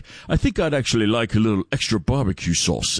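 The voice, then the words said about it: Very posh English accent. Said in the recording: “he talks like this as well ... He's a very posh English accent.”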